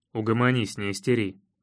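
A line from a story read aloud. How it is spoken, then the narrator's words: Irritated grumbling. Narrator (Russian): Раздраженно проворчал я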